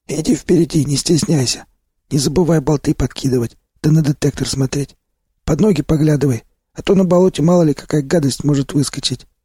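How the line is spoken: Instructing. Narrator (Russian): наставлял меня Сиплый

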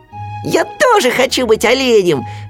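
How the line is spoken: Shouting. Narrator (Russian): закричал Ру

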